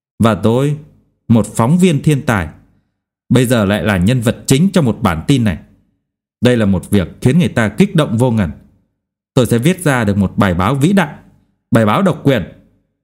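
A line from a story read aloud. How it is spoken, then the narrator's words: Near-shouting. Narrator (Vietnamese): Anh ta tiếp tục nói như hét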